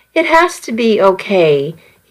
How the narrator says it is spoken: he replied gently

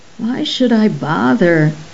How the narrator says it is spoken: asked sleepily

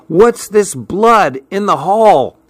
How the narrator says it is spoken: Suddenly, I heard Betsy shout

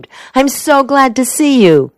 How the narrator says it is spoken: she exclaimed

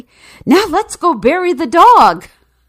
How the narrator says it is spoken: she said excitedly

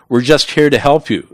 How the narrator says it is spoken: Ugaldi Flores yelled back

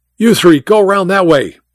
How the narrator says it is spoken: Mike shouted

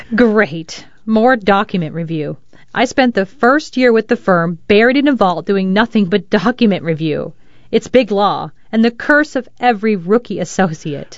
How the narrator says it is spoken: suppressed a laugh and said

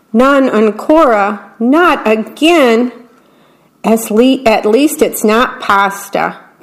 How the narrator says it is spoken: Big Anthony shouted

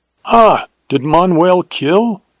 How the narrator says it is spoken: exclaimed the other

